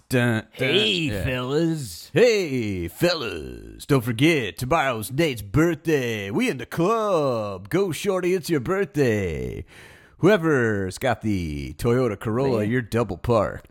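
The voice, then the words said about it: Strip club DJ announcer voice. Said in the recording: “I'll do like an announcer DJ voice as there's music going ... more strip club”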